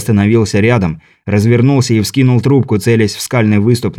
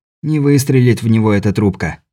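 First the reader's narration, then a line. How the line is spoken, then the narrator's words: Muttering. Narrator (Russian): пробормотал Беляев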